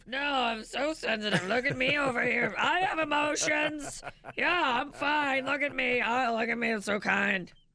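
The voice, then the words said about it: Mocking overly sensitive man voice. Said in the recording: “Said like a sensitive man. ... That was a pretty good impersonation.”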